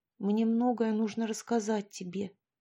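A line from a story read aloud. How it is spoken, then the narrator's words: Quiet, sinking. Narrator (Russian): сказала тихо Поленька, будто падая в бездонную пропасть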